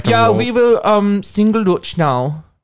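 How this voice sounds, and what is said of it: Put-on Dutch accent. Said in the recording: “my best impression of a Dutch”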